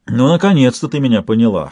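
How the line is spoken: Smirking hum. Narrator (Russian): хмыкнул он

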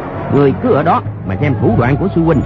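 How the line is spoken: Shout. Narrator (Vietnamese): quát lên

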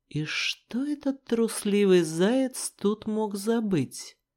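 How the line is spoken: Plain. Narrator (Russian): спросил Рыжик

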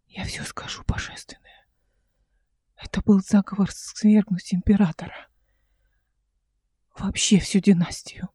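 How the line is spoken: Trembling voice. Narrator (Russian): с дрожащим голосом сказала Мараса

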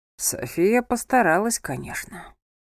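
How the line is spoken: Whispered. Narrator (Russian): прошептал он

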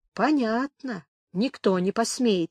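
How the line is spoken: Quiet agreement. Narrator (Russian): тихо согласился пекарь

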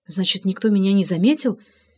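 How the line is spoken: Relieved whisper. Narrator (Russian): с облегчением прошептала Инга

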